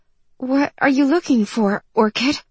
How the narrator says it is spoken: To distract herself, finally she gasped

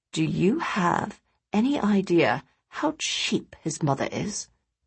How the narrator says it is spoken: Oliver lowered his voice, continuing

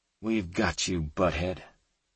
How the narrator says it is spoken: Kate muttered

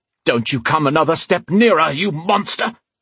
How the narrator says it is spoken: he shouted

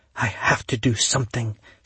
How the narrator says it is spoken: she whispered

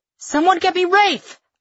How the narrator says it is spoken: I shout

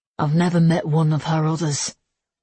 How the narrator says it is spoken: he murmured

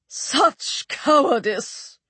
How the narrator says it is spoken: she cried

